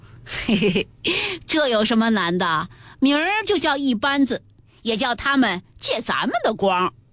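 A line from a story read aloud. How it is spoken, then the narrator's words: Laughing. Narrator (Chinese): 宝玉笑道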